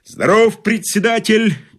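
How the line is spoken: Barked loudly. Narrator (Russian): гаркнул новоприбывший

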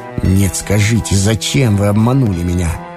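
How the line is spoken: Angry exclamation. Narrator (Russian): злобно восклицал Ромашов

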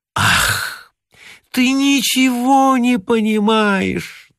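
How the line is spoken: Languid moan. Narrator (Russian): томно стонала Лили

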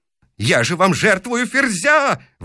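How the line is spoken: Yelling. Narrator (Russian): вопит он

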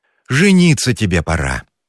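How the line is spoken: Sighing. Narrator (Russian): вздохнула Федосья Ивановна

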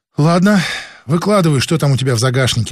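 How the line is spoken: Sigh. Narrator (Russian): вздохнул и Лукин

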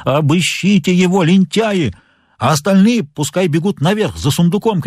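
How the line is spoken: Shouting. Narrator (Russian): кричал он

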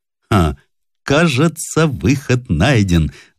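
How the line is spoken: Laughing. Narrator (Russian): засмеялся Смородинов

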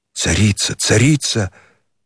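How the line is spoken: Reverent whisper. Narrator (Russian): пронеслось благоговейным шепотом

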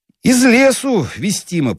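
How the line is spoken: Booming drone. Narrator (Russian): прогудел светленький

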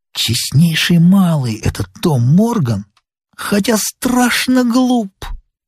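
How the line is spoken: Candid whisper. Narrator (Russian): Сильвер откровенно шепнул мне

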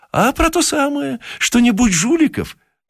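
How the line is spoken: Cheerful. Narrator (Russian): ответил тот весело

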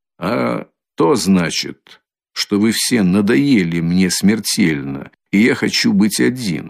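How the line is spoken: Calm answer. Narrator (Russian): спокойно отвечал Раскольников

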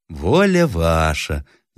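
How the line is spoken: Pleasant voice. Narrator (Russian): заговорил кто-то довольно приятным голосом

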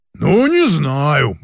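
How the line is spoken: Deep bass voice. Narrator (Russian): басил институтский приятель

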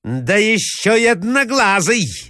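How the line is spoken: Shouted. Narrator (Russian): закричала Марья Александровна

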